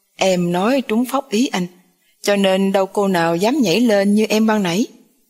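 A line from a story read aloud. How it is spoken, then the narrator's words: Loud laughing. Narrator (Vietnamese): Khang cười to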